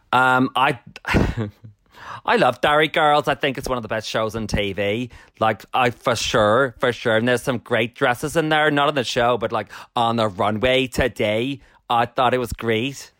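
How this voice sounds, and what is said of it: Put-on Derry accent. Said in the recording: “Can you give us some accent? ... You slipped a bit towards the end, but that was good.”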